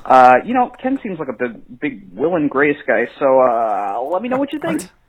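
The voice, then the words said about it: Little nerd character voice. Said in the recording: “Your little nerd voice ... I'm doing a character ... It's a little nerd voice”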